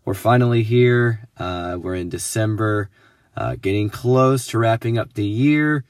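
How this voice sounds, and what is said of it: Voice still rough from illness. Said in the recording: “tell from my voice, I'm getting over being sick... I kind of like the way my voice sounds right now”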